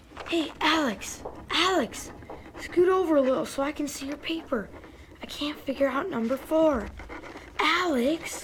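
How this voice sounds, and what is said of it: Whispering. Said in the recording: “I'm whispering.”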